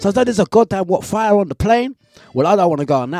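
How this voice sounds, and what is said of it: Usual voice. Nothing is said of it.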